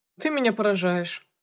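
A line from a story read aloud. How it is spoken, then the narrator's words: Doctor snorting. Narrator (Russian): хмыкнул врач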